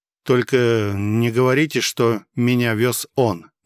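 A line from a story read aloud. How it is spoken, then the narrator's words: Taken aback, through gritted teeth. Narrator (Russian): немного опешив, процедил я сквозь зубы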